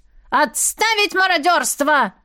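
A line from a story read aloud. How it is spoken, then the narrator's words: Displeased shout. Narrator (Russian): Пеппер позволил себе недовольно крикнуть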